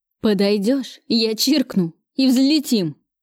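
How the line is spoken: Trembling voice. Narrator (Russian): сообщил он мне дрожащим голосом

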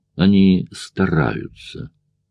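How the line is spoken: Gloomy. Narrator (Russian): мрачно произнес

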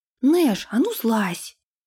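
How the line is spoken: Indignant exclamation. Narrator (Russian): возмущенно воскликнула она

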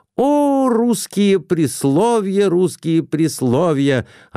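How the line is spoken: Exclaimed. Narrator (Russian): опять воскликнул

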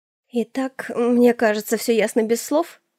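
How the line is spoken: Forced, strained utterance. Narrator (Russian): Выдавила я из себя

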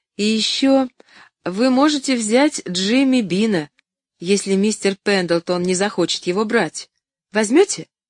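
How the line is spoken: Forced laughter. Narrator (Russian): Доктор Чилтон неестественно засмеялся

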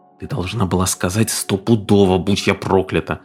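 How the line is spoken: Whispering. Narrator (Russian): зашептал Стив

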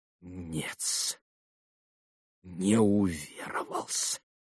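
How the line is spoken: Whispered. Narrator (Russian): прошептал Смердяков

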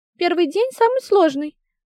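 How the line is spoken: Stubborn, groaning. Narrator (Russian): упрямо ответила ведьма и застонала

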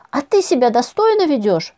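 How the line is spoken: Shrieking young man. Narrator (Russian): взвизгнул парень

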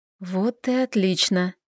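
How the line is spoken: Relieved whisper. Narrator (Russian): прошептала с облегчением

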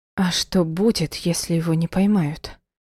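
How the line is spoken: Trembling questioning voice. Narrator (Russian): спросила я неожиданно дрогнувшим голосом

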